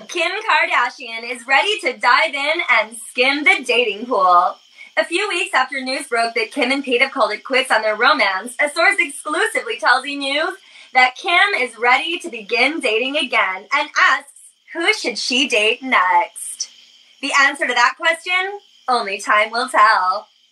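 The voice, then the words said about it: Entertainment news anchor voice. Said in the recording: “That's my E! News voice ... it's really good. And you should be booking work just for that stupid voice.”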